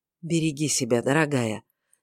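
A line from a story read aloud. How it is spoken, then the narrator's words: Quiet. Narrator (Russian): негромко сказал он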